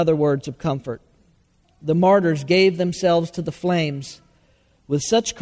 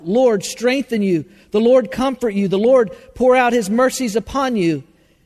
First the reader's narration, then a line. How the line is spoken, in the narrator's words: The people who looked on, thousands of them, cried out